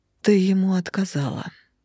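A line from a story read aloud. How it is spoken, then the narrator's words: Woman's sad, matter-of-fact statement. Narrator (Russian): констатировала женщина печально вздохнула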